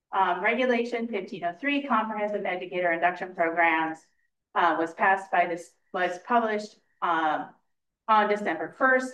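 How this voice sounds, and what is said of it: Loud, projecting teacher voice. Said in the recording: “excuse me if I'm loud ... teacher voice ... so that they can hear me in the back”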